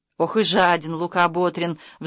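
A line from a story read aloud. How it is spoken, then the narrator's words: Sighing. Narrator (Russian): вздохнула Еремьявна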